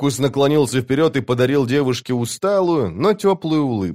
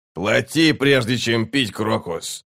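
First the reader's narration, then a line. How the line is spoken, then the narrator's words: Grumbling. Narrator (Russian): проворчал Нахал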